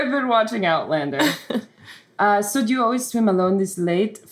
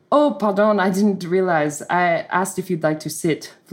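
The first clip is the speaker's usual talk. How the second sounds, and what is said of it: Put-on French accent. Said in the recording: “Do you guys like my accent? ... switch between narration, Scottish, and French”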